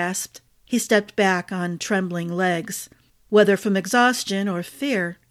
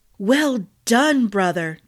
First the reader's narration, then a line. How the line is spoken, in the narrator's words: Darian exclaimed